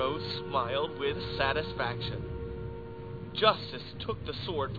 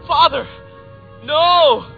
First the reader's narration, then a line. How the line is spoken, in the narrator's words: The feeble young man raised his eyes and shouted